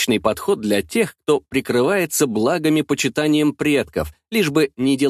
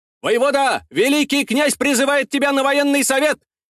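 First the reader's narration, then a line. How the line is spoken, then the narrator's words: Messenger's loud call. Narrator (Russian): выкрикнул вестовой у входа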